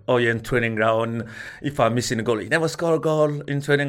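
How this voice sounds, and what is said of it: Mixed French and African accent. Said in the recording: “my, my accent mixed French African”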